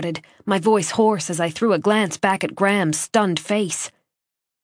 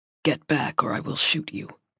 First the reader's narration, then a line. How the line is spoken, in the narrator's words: Graham said, his voice utterly calm